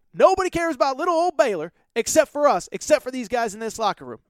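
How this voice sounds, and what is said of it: Poor impression of Scott Drew. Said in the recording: “that was a terrible Scott Drew impression”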